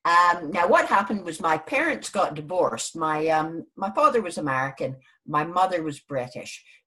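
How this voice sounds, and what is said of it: Non-British accent. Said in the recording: “you'll probably hear from my accent, I'm not actually from Britain originally.”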